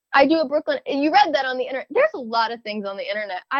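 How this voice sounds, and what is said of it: Usual voice. Nothing is said of it.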